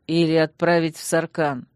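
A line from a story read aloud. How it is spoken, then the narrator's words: Grim, through gritted teeth. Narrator (Russian): мрачно процедил мой муж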